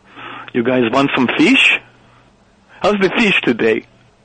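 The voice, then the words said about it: Exaggerated mock Norwegian accent. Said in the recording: “imitating the Norwegian accent around the crew. And I've got a pretty good ear for accents. I'm pretty good at them ... This is your imitation of the people of Norway ... super, super insulting and inaccurate”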